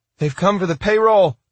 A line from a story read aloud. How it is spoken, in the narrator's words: he shouted